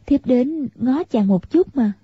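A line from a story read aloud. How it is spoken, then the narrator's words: Smiling. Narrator (Vietnamese): Tiểu Long Nữ mỉm cười, nói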